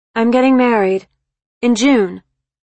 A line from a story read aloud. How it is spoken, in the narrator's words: she blurted out